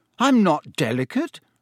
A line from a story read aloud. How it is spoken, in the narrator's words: said Harry crossly